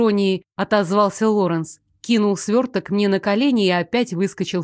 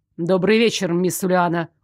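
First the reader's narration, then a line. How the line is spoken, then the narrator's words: Cold, pointedly polite greeting. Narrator (Russian): Холодно и с подчеркнутой вежливостью поздоровался Лоренс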